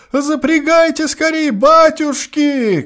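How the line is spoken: Tearful shouting. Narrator (Russian): кричал он плачущим голосом

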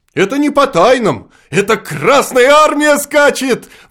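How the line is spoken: Excited child's shout. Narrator (Russian): восторженно крикнул невытерпевший октябренок Карасиков

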